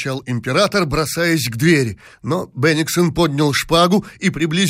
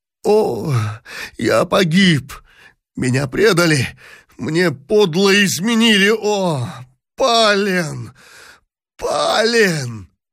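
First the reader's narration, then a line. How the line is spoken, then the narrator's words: Anguished moan. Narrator (Russian): простонал в тоске император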